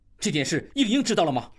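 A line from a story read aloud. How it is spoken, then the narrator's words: Furious. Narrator (Chinese): 应济大怒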